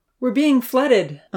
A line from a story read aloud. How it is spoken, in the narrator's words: Uncle Louis called out